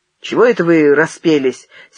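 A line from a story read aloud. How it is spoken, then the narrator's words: Angry. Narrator (Russian): сердито сказал от стенки Зенин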